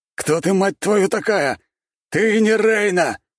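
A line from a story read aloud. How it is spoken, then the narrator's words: Shouting. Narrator (Russian): прокричал шатен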